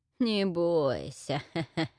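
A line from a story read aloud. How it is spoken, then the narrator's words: Gurgling laugh, witch. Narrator (Russian): забулькала, смеясь ведьма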